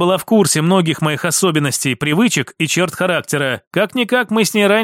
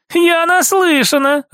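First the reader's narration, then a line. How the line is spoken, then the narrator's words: Laughing. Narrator (Russian): рассмеялась София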